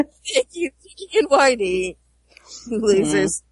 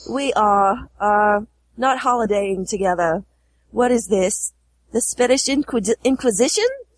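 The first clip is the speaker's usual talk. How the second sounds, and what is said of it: Put-on Australian accent. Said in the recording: “Your Australian accent never fails to amuse you.”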